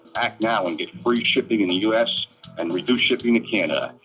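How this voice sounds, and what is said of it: Strong New York accent. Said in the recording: “such a New York accent”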